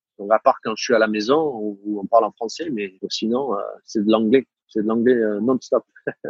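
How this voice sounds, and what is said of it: Southern French accent. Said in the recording (French): “je retrouve mon accent du sud ... Je te rassure, je l'entends.”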